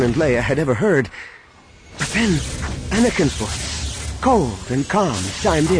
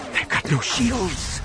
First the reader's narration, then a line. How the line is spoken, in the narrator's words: she whispered, more to herself than anyone else